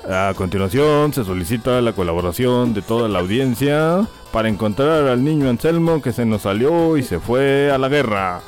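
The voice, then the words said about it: Announcer voice for lost-child notices. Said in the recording (Spanish): “voz de locutor de niños perdidos”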